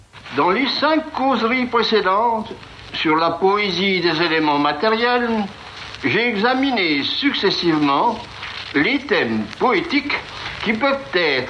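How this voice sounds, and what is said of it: Distinctive regional French accent. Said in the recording (French): “avec cet accent que vous avez découvert tout à l'heure”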